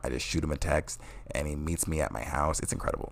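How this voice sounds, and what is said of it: Strained, odd-sounding voice. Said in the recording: “my voice sounds weird, it's because I was yelling a lot today”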